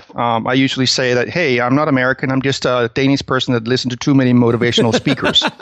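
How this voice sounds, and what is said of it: Danish accent in English. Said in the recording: “I'm from Denmark originally. That's where you probably will pick up the weird accent I have.”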